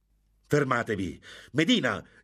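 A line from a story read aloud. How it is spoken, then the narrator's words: Shouting. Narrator (Italian): gridò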